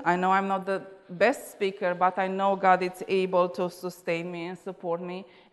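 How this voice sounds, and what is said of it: Strong accent. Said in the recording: “I know I have a very strong accent.”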